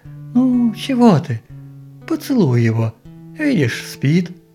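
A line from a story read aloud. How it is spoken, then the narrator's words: Gentle, persuasive. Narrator (Russian): ласково, убедительно сказала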